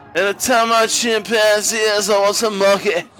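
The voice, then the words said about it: Imitates another person's singing voice. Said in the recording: “that was a good impersonation of Beck right there.”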